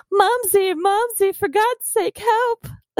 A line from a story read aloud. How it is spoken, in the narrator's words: Judd became terrified and let out a whining scream